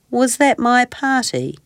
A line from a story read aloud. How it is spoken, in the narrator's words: asked sadly